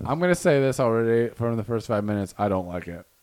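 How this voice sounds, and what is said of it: Imitates another person's voice. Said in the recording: “my Rev Flow impression”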